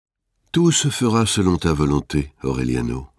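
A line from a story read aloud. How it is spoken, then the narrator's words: Sighing. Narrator (French): dit-elle en soupirant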